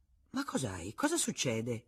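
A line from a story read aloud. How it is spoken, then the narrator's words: Father exclaiming. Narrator (Italian): esclamò suo padre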